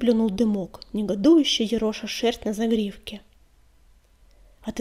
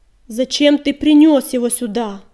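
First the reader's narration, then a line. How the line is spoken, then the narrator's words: Roaring. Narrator (Russian): взревел коготь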